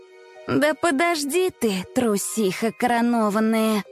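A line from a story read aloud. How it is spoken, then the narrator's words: Grumbling. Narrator (Russian): проворчала Несмеяна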